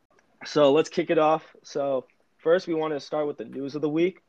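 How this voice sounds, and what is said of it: Hoarse sore-throat voice. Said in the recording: “I'm sounding a little worse... I have a little bit of a sore throat”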